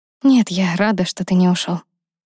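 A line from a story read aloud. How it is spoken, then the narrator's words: Quiet, embarrassed. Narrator (Russian): тихо сказала Лиза, смутившись от своего откровения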